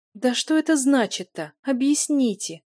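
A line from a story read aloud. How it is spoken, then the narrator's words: Pleading. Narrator (Russian): взмолилась Юля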